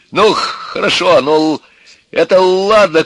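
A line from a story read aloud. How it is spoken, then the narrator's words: Shouting father. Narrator (Russian): кричал отец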